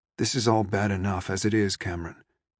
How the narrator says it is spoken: Dad said gently

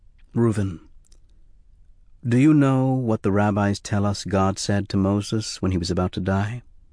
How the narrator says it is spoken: said softly

